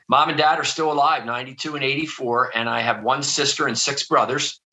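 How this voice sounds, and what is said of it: Philadelphia accent. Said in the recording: “I grew up outside of Philadelphia. I'm sure you can probably hear that in my accent.”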